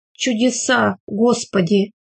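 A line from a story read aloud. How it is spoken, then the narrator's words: Whisper. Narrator (Russian): только и прошептал он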